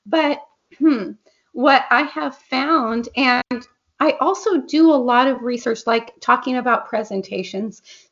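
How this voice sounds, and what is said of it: Hoarse, strained voice. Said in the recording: “I'm losing my voice now. ... so excuse my voice.”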